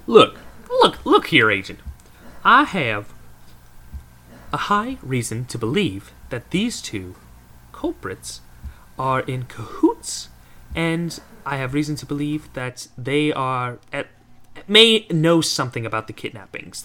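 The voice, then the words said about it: Put-on country accent. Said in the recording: “that country accent that I've given everybody in this town so far”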